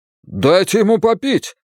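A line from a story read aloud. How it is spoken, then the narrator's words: Shouted. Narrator (Russian): закричал Бен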